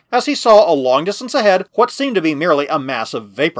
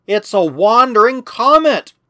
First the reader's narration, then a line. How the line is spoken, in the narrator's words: cried Protexa